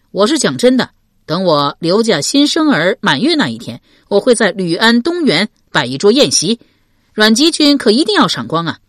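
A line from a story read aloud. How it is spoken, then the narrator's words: Calling out. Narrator (Chinese): 刘玲叫道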